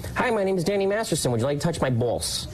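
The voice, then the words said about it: Imitates another person's voice. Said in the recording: “doing an imitation of me because ... certain so words”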